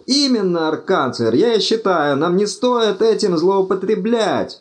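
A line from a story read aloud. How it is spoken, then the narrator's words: Hysterical shriek. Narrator (Russian): истерически взвизгнул Думинг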